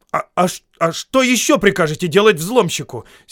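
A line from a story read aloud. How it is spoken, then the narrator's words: Angry snapping retort. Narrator (Russian): сердито огрызнулся Бильбо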